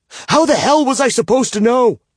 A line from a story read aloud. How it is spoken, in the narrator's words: I shout